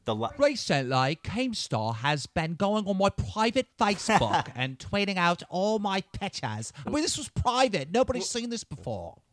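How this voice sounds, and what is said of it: Put-on Cockney accent. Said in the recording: “What are you, a Cockney accent?”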